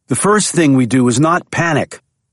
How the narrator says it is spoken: Jack said sharply

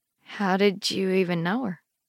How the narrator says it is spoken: I asked gently

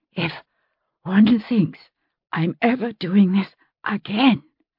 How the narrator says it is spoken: she panted, but broke off

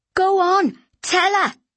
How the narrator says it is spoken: Mary shouted

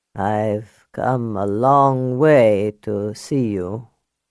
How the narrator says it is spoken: he said in a worn, gravelly voice

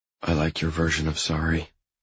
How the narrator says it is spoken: I whisper

